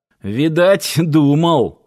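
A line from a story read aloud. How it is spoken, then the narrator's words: Skeptical snort. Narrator (Russian): хмыкнул Киркин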